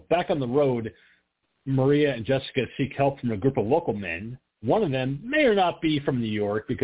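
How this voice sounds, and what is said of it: Usual voice. Nothing is said of it.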